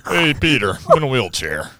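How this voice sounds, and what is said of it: Cartoon character impression. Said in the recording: “your Joe impression ... It sounds like the cartoon. It's so crazy. It doesn't even sound real.”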